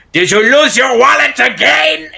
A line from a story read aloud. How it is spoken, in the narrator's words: shout